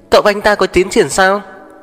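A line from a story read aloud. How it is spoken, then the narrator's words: Excited shout. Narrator (Vietnamese): Lâm Yêu Yêu nhất thời phấn khích hét lên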